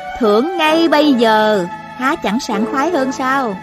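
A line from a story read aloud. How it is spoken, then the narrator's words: Smiling question. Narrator (Vietnamese): Thanh Thanh mỉm cười hỏi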